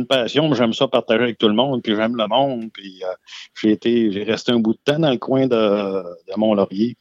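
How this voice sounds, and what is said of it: Slight Lac-Saint-Jean Quebec accent. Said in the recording (French): “ton accent un petit peu, là, t'as, l'accent des, euh, des, bleuets ... quand même un, petit accent qu'on peut distinguer”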